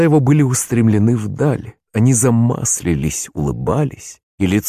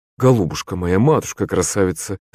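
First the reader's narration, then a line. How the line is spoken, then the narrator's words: Tender tearful voice. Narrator (Russian): заговорил вдруг Вася ласковым плачущим голосом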